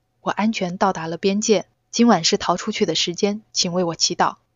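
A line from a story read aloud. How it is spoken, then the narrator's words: Whispered. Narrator (Chinese): 打电话的人小声说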